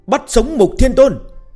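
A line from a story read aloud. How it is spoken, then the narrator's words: Excited crowd shouting together. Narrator (Vietnamese): Các tướng sĩ dưới trướng gã phấn khởi đến mức sắc mặt đỏ bừng, đồng thanh hét lớn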